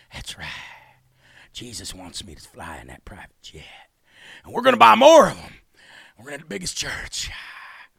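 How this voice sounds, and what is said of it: Imitates another person's voice. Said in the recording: “my Kenneth Copeland impression.”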